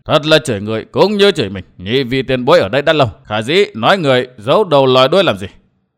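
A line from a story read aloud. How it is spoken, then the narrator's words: Cold mocking voice. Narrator (Vietnamese): Một gã cười nhạt nói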